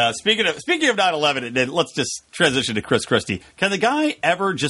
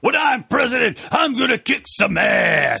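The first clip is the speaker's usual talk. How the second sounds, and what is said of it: Blustery professional wrestler impression. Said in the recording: “I was talking like a professional wrestler, so I'm doing, like, a blustery impression.”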